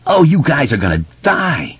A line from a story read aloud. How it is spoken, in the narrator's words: screamed